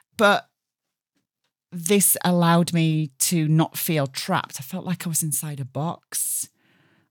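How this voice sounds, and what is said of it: Slightly hoarse voice. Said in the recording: “I'm a little bit hoarse, actually, because I'm just recovering from a chest infection”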